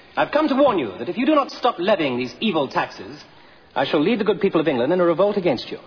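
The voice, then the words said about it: English accent. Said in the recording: “I can speak with an English accent.”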